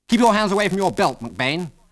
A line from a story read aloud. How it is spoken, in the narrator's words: snapped Algy